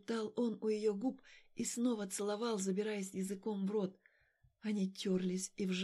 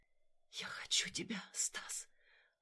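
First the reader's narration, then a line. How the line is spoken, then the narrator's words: Whisper in ear. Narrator (Russian): Алина прошептала ему в ухо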